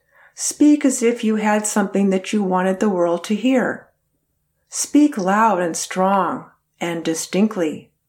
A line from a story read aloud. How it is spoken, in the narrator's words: she told all the class